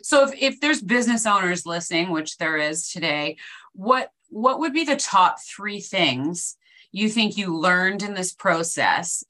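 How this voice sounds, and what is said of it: Canadian English accent. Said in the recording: “I like the Canadian accent ... I'm giving it all away”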